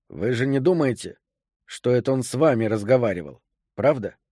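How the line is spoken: Quiet question. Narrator (Russian): тихо осведомился я

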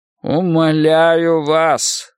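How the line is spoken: Hollow muffled voice. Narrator (Russian): сказал он глухим голосом

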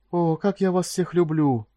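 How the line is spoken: Cooing male voice. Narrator (Russian): проворковал он

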